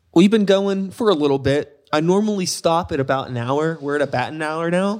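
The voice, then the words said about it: Pittsburgh accent. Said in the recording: “You also sounded like a total Pittsburgher there... you do and you don't even realize it... I can hear it.”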